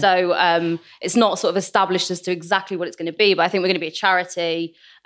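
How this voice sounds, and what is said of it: English South Manchester accent. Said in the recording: “in an English accent, vagina sounds fabulous ... it's a South Manchester Jewish accent”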